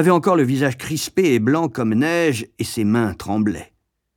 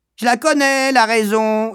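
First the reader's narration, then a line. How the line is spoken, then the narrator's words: Young girl yelling, laughing loudly. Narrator (French): hurla la petite sœur de 7 ans, riant à gorge déployée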